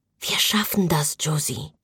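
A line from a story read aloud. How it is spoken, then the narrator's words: Quiet, comforting. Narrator (German): sagte leise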